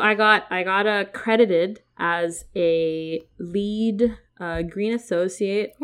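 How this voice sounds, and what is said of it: Usual voice. Nothing is said of it.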